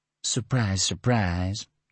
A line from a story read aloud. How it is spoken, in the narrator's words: Tony murmured